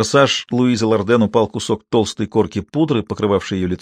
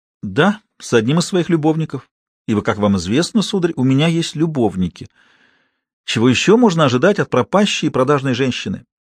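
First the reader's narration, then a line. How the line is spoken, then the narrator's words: Sincere, plaintive. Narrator (Russian): Ответ прозвучал искренне, а потому жалобно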